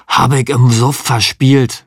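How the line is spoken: Hoarse. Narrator (German): sagte Frankie heiser

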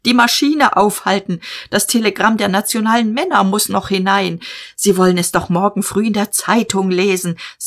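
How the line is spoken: Shouting. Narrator (German): schrie er

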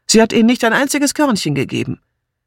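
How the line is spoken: Female call. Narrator (German): rief Martha

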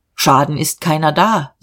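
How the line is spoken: Calm. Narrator (German): sagte er ruhig

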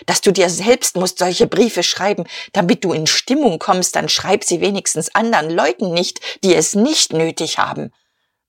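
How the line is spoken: Hissed reply. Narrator (German): erwiderte Guste und zischte

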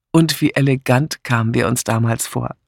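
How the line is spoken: Plain. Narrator (German): sagte Miss Blacklock

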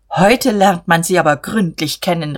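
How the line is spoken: Calling out. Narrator (German): rief er

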